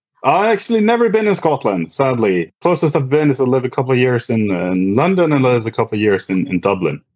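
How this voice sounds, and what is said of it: Distinctive accent, Scottish-sounding to listeners. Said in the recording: “if you have been to Scotland, based on your cool accent.”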